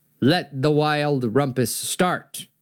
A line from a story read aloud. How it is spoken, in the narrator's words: cried Max